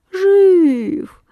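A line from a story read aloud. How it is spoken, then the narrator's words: Sleepy voice. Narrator (Russian): сонным голосом откликается ерш Ершович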